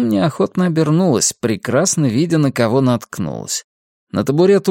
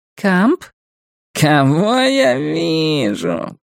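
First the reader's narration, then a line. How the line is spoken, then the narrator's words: Squeaky. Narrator (Russian): пропищал Вонючка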